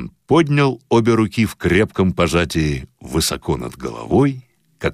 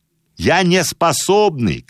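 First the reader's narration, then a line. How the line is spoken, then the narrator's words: Shout. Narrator (Russian): крикнул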